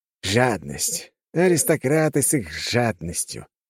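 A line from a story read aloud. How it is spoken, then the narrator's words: Hissed. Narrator (Russian): прошипел один из ученых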